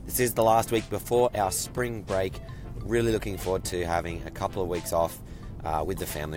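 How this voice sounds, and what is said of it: Sore throat, under the weather. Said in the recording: “tell from my voice that I am feeling a little bit under the weather. I have a bit of a sore throat.”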